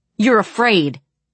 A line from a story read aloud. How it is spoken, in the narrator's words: yelled the guy by me